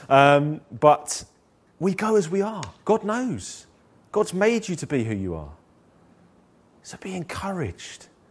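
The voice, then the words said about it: Deep gruff London accent. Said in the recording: “my gruff London accent ... my deep London gruff accent”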